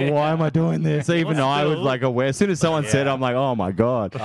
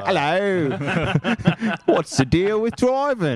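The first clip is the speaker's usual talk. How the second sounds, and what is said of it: Put-on English accent. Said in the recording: “why are you in an English accent? ... my stand-up character for the first, like, you know, 6 months was like, hello.”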